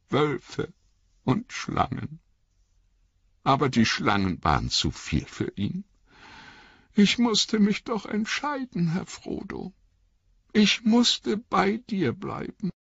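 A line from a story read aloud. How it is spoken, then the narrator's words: Choked voice. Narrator (German): sagte mit erstickter Stimme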